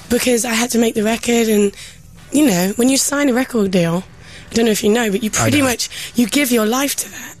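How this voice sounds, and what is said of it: English speaker with American-sounding accent. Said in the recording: “I've been in America for the last few years. I pick up the accent very easily. I don't realise that I'm talking like that... if I spend 6 months back here, then I'll start sounding English again”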